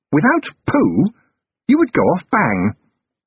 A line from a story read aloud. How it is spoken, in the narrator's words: he looked up brightly and said